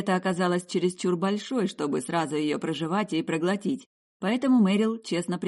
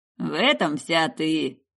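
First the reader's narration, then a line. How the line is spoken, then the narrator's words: Chuckling. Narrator (Russian): Алистер хохотнул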